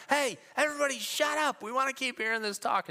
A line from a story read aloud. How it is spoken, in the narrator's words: the old mamas are yelling